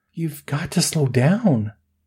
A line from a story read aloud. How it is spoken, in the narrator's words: Melanie pleaded